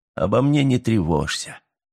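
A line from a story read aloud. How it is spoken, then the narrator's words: Calm. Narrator (Russian): спокойно проговорил он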